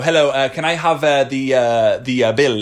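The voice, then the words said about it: Put-on foreign accent, halting English. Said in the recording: “i speak english with an accent ... Why are you speaking in the accent? You sound like a weird.”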